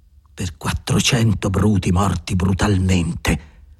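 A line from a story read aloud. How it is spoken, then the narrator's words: Murmured. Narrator (Italian): mormorò Andrea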